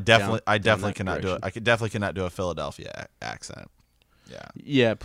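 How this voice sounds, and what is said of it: Usual voice. Nothing is said of it.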